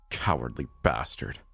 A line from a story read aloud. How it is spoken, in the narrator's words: I muttered